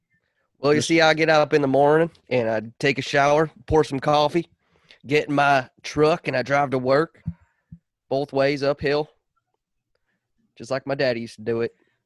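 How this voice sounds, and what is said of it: Put-on Southern US accent. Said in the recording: “Are you Southern now? ... You Southern now? ... it's going to be a Southern accent ... So having a mustache automatically gives you a Southern accent then?”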